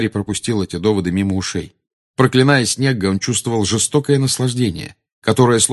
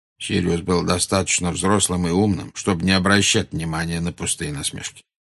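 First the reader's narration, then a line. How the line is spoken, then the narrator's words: Plain. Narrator (Russian): сказал Дамблдор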